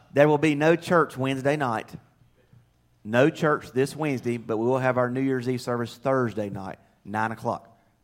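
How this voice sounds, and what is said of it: Southern American accent. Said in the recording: “my southern accent, some of you northerners have a hard time following what I'm saying”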